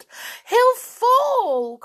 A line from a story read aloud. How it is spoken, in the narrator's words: cried Anne